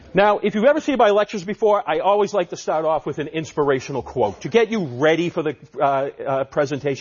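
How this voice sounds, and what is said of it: Massachusetts accent. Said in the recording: “my Massachusetts accent”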